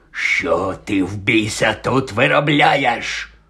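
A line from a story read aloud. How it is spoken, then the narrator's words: Hoarse through gritted teeth. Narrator (Ukrainian): прохрипів, стипивши зуби дядько Вернон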